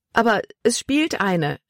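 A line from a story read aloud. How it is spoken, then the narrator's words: Exclaiming. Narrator (German): rief sie aus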